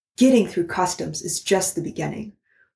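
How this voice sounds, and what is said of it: Formal announcer-style podcast voice. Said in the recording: “put on my podcasting voice”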